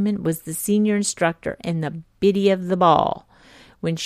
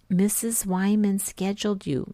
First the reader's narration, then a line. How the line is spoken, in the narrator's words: She ... whispered